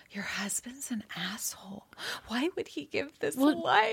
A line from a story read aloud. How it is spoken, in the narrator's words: like whispering though